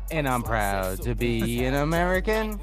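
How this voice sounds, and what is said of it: Singing in exaggerated country accent. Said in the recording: “You can't sing that without the wild country accent.”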